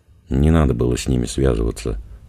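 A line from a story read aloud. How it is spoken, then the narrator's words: Sighing. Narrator (Russian): вздохнула Тома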